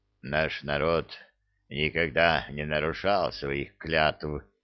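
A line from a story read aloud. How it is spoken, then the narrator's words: Embarrassed young male mutter. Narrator (Russian): смущенно пробурчал молодой орк, кляня себя за несдержанность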